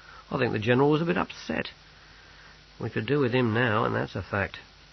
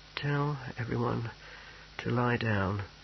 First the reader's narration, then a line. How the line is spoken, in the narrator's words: he muttered